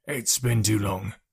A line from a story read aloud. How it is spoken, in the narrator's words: said in his gravelly voice